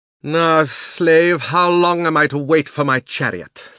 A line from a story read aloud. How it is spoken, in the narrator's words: thundered the witch